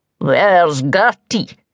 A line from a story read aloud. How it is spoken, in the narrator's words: rumbled the troll